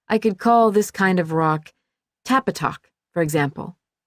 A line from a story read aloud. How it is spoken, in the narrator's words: she said